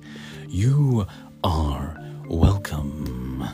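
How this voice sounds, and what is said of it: Lion king character voice. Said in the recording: “Shall I say you're welcome in a um, King Lion? I liked doing that voice.”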